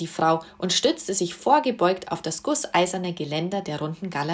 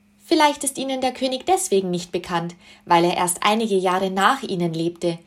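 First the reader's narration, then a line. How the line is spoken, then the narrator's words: Calling upward. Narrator (German): rief nach oben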